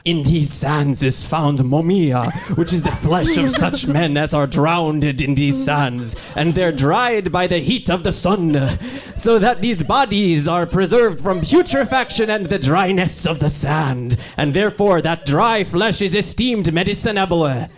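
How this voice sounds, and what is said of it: Put-on accent drifting toward Yiddish. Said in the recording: “An excellent accent there. ... Your accent is getting more and more Yiddish.”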